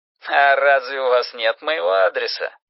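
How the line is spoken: Mocking question. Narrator (Russian): насмешливо поинтересовался голос

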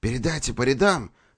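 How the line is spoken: Whispered. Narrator (Russian): шепнул Глеб своему соседу

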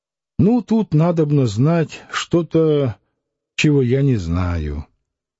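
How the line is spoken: Sighing mutter. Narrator (Russian): Дмитрий вздохнул и пробормотал

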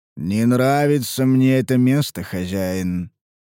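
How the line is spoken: Drawl. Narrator (Russian): протянул Гробак

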